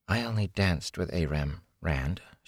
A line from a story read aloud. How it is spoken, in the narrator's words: she said softly